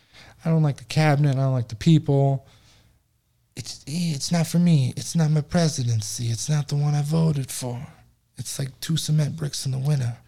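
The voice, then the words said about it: Mob boss voice. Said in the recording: “What do you sound like a mob boss?”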